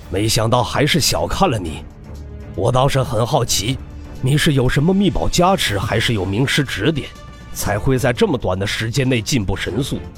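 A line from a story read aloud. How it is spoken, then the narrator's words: Deep voice. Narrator (Chinese): 上官行沉声道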